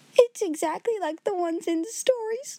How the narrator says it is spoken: she wailed

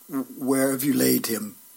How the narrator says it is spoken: he said in a soft but firm voice

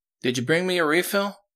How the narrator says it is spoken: Jess asked, pleading

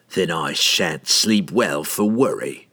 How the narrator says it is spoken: Entreri spat

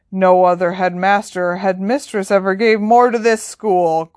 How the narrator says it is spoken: growled Hagrid

